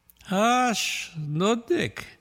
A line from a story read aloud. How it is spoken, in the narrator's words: grumbled Pincus